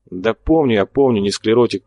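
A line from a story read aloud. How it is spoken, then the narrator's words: Grumbling. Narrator (Russian): проворчал майор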